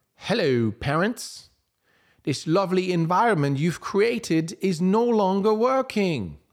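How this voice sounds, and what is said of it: Put-on somewhat British accent. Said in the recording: “a somewhat British accent.”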